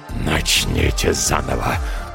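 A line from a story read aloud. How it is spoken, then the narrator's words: Growl, calming slightly. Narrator (Russian): прорычал дьявол, чуть остывая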